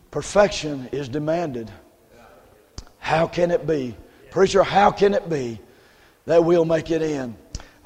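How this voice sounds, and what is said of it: Strained, nearly lost voice. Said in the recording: “my voice is about gone”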